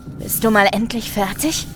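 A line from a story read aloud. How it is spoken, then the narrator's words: Impatient growl. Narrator (German): knurrt Something Worse ungeduldig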